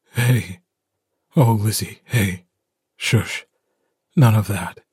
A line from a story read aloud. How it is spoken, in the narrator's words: His voice is rough when he says